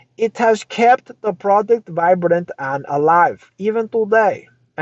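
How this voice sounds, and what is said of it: Put-on accent while quoting. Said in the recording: “That's my accent.”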